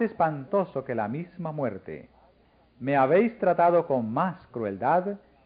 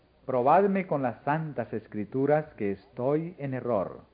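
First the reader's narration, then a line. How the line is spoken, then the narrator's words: Plain. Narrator (Spanish): dijo él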